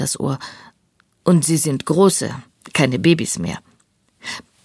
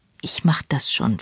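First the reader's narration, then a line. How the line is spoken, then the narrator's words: Whispering. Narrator (German): flüstert sie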